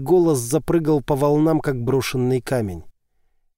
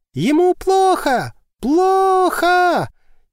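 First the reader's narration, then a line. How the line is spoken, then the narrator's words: Hysterical screaming woman. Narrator (Russian): Истерично проорала женщина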